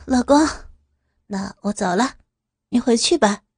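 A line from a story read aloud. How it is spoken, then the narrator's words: Smiling. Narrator (Chinese): 展颜一笑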